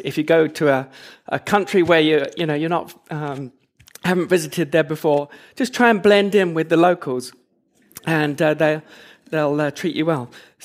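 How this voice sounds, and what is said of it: English accent. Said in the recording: “as you can tell from the accent ... originally from England”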